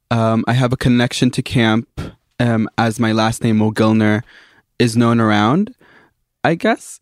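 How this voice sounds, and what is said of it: American accent. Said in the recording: “as you can probably hear by my accent, I'm American”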